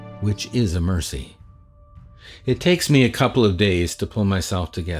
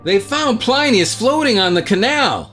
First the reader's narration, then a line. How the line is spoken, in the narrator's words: shouts